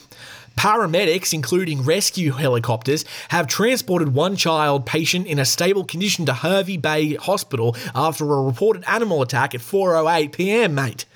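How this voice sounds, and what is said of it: Exaggerated Australian accent. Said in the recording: “I don't have to do an accent for this one because it's my own. I'll go way over the top for it. ... That's my Australian accent if I was trying to do it really hard.”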